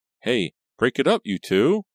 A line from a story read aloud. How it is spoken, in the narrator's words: Reva cried